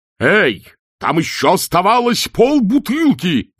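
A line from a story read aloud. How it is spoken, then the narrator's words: Roared. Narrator (Russian): взревел чудакулли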